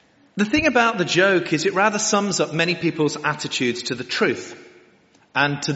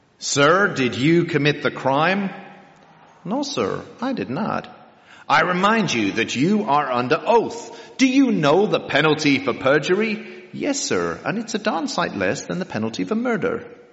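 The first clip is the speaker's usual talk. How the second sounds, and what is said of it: Put-on American accent. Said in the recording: “A man in an American court, because that's what I can do the accent for”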